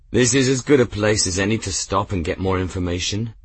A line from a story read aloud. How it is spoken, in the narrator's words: Grimm said